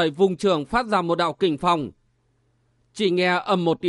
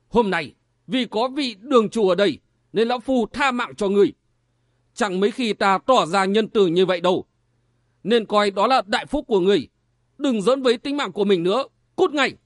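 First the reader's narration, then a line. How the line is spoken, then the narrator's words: Old man's sudden bark. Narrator (Vietnamese): Lão nhân mắt cú mũi diều ngồi ở bàn giữa bỗng quát lên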